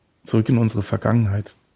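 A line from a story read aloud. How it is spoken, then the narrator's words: Sighing. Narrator (German): Knut seufzte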